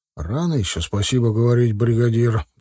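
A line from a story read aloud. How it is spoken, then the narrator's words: Grumbled. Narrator (Russian): проворчал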